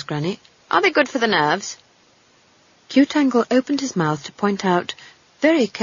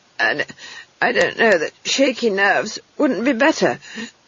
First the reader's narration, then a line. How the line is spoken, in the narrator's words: she wheezed